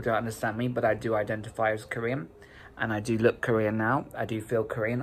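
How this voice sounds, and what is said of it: British accent. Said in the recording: “you were born there, you got the whole accent going on, you're British”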